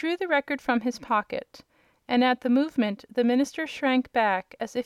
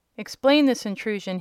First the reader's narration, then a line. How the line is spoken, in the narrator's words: he cried